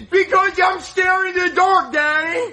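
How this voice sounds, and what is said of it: Screaming. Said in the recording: “Why are you screaming?”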